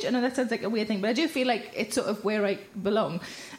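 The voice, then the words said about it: Telford regional English accent. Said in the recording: “I recognise your accent, where are you from? And I say, oh, I'm from Telfield.”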